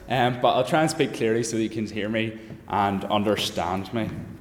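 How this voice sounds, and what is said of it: Strong Northern Irish accent. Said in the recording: “For a Northern Irish accent, mine's a lot stronger.”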